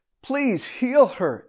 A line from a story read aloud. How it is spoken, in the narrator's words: everyone begged